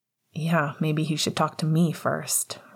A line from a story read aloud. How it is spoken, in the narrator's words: Remus grumbled